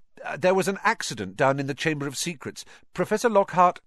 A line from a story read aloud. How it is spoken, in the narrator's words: Ron said quickly